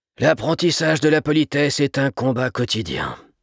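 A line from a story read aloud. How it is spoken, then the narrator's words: Father, sighing. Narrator (French): soupira le père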